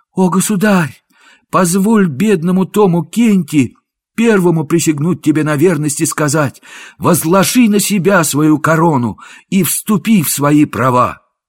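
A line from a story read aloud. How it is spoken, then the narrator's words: Joyful exclamation. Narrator (Russian): Мнимый король с радостным лицом воскликнул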